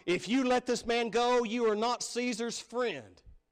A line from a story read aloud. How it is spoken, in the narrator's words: the Jews cried out